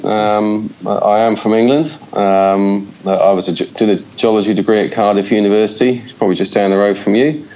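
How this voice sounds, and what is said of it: Slight Australian accent. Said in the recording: “slight Aussie accent”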